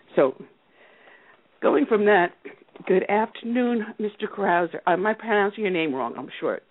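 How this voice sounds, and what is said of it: Strained, failing voice. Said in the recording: “I'm losing my voice rapidly. ... Feeling a little ill.”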